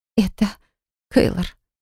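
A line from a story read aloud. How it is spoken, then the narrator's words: Trembling whisper. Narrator (Russian): прошептала дрожащим голосом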